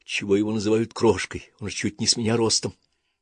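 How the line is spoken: Whispered. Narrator (Russian): прошептал

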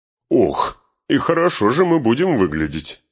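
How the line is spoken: Exclaimed laughing. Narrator (Russian): Внезапно расхохотавшись, воскликнул Гимли

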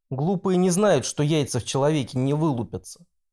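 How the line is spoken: Thoughtful. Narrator (Russian): Он задумчиво добавил

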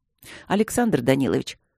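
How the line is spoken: Calm. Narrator (Russian): произнес Тандаджи спокойно

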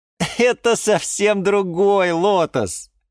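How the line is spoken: Laughing. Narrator (Russian): рассмеялся Юра

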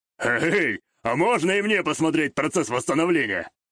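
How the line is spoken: Smirking snort. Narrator (Russian): хмыкнул

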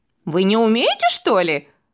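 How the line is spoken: Boy's scoffing snort. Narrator (Russian): хмыкнул мальчишка

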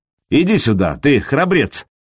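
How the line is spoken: Mocking. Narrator (Russian): насмешливо произнес Сергей

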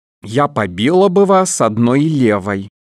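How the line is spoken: Plain. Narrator (Russian): сказала она

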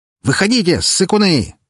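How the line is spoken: Bold shout. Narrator (Russian): закричал Николай, смело

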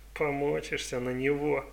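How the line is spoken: Laughing. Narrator (Russian): рассмеялся Джейн

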